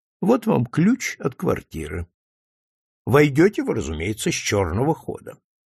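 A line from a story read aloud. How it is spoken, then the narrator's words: Calm. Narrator (Russian): спокойно добавил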